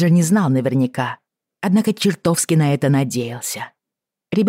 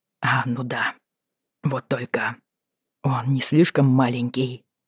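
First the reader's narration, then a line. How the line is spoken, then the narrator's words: Doubtful mutter. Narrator (Russian): с сомнением пробормотал Роджер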